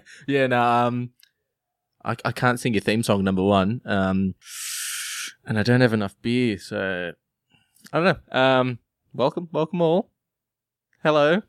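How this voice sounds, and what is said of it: Australian accent. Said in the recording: “that beautiful, beautiful Australian accent”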